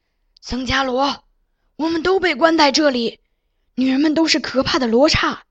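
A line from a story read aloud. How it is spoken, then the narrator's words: Hoarse familiar voice. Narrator (Chinese): 一个熟悉的、离开了很久的人的沙哑声音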